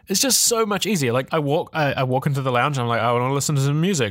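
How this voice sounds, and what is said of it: British accent. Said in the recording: “I really love your British accent.”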